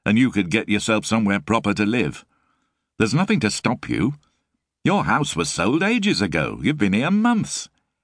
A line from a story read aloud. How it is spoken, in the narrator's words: said flatly